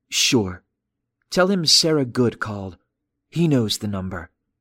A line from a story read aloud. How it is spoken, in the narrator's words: she said coolly